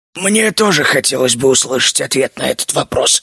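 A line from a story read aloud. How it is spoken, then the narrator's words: Hoarse voice. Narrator (Russian): хриплым голосом произнес Джино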